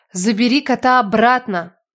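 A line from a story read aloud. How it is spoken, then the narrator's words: Strained demanding voice. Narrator (Russian): Не своим голосом потребовала я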